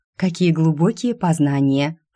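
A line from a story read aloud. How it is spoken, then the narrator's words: Snorting. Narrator (Russian): фыркнула я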